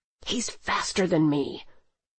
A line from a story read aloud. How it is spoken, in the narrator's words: Carlos in anger hissing